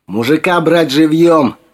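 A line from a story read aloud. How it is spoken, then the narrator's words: Yelled. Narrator (Russian): заорал Алекс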